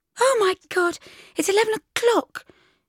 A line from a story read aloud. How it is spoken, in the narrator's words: shrieked Wony